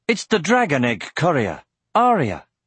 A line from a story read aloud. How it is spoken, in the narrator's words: One of the men said sharply